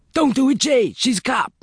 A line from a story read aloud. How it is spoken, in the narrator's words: the teenager screamed